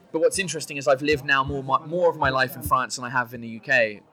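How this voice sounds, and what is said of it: English accent. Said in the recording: “I'm English. Like, I can't cheat the accent... you can't, like, hide it... It's my favorite accent of the world”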